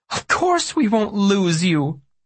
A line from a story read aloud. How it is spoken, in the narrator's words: Mom cried